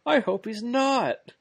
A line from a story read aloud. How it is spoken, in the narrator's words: the other one yells